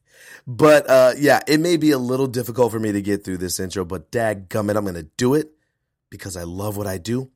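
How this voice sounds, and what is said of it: Low, husky voice with a cold. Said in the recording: “I'm getting over a cold, which is why my voice is so seductively low”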